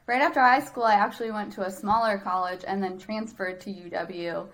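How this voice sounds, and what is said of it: Upper Midwest accent. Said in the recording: “I'm kind of a Midwest girl at heart. I've got that Canadian accent.”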